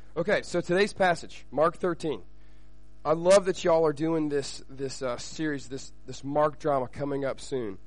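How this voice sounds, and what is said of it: Shaky, sick-sounding voice. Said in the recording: “My voice is a little shaky, so I'm a little sick”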